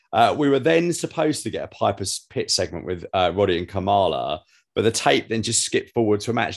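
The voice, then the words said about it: Slightly strange, ill-sounding voice. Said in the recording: “I'm still getting over COVID round two, though. I've got a cough that won't go away, and probably why my voice sounds a little bit weird.”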